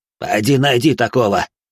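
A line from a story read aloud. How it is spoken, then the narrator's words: Merchant's scoffing snort. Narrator (Russian): хмыкнул торгаш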